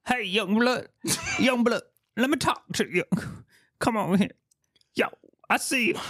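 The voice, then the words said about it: Tracy Morgan impression. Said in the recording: “the best Tracy Morgan impression ... he really is sounding like Tracy Morgan”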